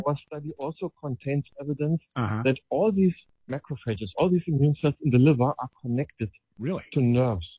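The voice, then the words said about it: Distinctive foreign accent. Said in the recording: “he's got such a wonderfully great accent”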